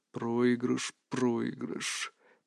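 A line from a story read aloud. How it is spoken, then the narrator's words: Muttered. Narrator (Russian): пробормотал Арс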